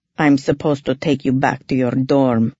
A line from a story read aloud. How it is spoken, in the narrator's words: Dimitri told me dryly